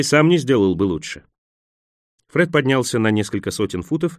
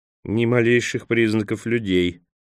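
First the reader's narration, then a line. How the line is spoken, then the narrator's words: Grumbling again. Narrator (Russian): опять проворчал Джанни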